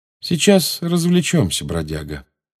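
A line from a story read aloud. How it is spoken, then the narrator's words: Calm. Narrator (Russian): спокойно сказал Джеймс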